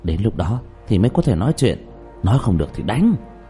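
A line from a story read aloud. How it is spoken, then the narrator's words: Lowered voice. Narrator (Vietnamese): Trương Vô Sanh nhỏ giọng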